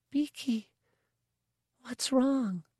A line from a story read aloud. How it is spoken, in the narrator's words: the child whispered